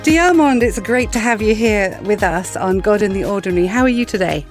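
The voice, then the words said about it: English accent. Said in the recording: “I have this English accent”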